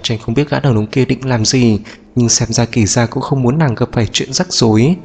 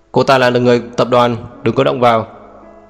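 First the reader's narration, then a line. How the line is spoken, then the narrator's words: Cold shout. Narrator (Vietnamese): Kỵ Gia liền lạnh lùng quát lên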